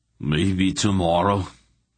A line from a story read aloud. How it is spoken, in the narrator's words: he grunted